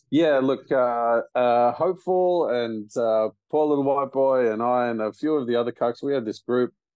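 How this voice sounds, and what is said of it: Strong Australian accent. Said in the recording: “my ridiculous accent, I am an Aussie”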